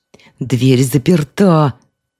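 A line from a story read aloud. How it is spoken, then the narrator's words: Howling cry. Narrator (Russian): взвыл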